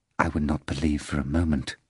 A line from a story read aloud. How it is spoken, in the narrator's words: Afranius said quietly